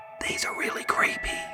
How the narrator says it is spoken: Art whispered to Emerald

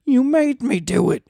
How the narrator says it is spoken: He hissed

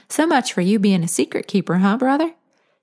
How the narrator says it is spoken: Sam giggled in rebellion

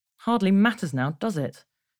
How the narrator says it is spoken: Stella mumbled

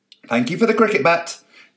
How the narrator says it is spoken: he shouted at the window

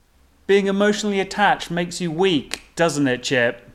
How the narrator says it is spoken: MC called out

